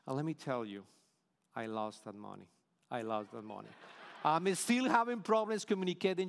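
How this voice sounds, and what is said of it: Colombian-accented English. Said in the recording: “the best Colombian American you can imagine. I even tried to reduce my accent ... classes to reduce your accent”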